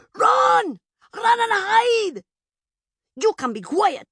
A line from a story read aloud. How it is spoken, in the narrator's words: Madilla, her servant, screamed behind her